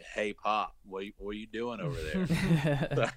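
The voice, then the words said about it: Thick put-on Southern accent. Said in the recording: “I would throw on a thick Southern accent”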